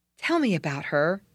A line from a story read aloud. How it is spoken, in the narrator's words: said the boy eagerly